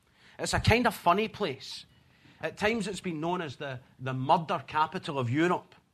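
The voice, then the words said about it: Scottish accent. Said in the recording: “the accent is Scottish”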